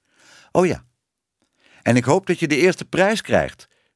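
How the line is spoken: Calling after someone. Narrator (Dutch): riep Tibbe haar nog na

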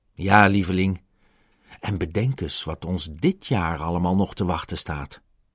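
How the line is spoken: Plain. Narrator (Dutch): zei Pongo

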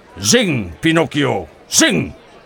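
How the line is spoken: Fat puppeteer snapping. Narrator (Dutch): snauwde Stromboli, de dikke poppenspeler

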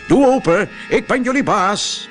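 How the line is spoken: Loud call. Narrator (Dutch): een luide stem riep

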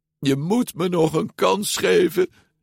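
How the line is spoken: Pleading. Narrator (Dutch): smeekte Luca

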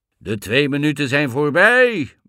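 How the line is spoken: Roaring. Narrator (Dutch): brulde Blauwbaard

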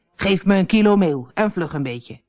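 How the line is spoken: Growling. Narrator (Dutch): gromde tegen het bakkersknechtje

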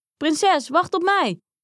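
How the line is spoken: Frog calling after someone. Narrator (Dutch): riep de kikker haar na

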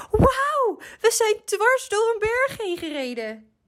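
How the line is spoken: Shriek. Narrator (Dutch): gilde hij

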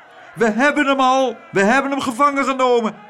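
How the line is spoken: Little men roaring from windows. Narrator (Dutch): brulden de mannetjes bovenuit de ramen

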